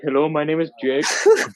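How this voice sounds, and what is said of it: Heavy Indian accent. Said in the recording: “this like Indian guy ... With a heavy no, Indian accent.”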